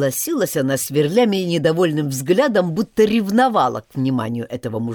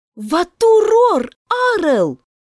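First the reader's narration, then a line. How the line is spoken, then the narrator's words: Cry out. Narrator (Russian): вскрикнула Мия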